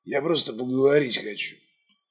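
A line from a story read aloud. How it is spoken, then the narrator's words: Breathed out. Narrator (Russian): выдохнул он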